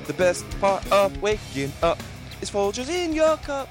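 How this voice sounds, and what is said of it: Sung jingle ending in falsetto. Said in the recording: “The falsetto in there towards the end.”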